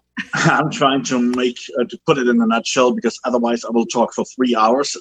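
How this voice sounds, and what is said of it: German accent. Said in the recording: “I come from a very dysfunctional family in Germany. That's where the funny accent comes from.”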